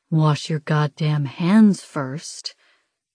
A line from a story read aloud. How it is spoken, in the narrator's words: Des growls